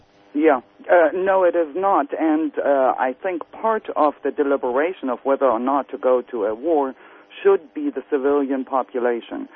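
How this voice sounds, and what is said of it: German accent. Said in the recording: “as you can tell from my accent ... I came from Germany originally”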